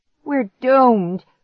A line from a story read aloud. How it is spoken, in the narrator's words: Clark groaned